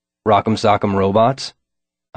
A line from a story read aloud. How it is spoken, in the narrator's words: I said